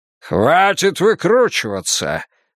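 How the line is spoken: Barking cardinal. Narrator (Russian): рявкнул кардинал Лурдзамийский

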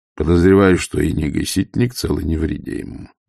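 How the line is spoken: Grim. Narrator (Russian): мрачно сказал Ваймс

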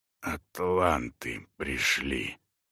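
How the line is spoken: Hoarse voice. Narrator (Russian): хриплым голосом проговорил он

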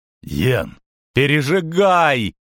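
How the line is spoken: Howling. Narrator (Russian): взвыла она

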